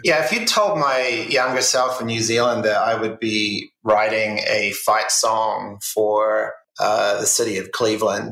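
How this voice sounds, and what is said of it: New Zealand accent. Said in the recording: “I hear obviously your accent is coming through. So you're from New Zealand”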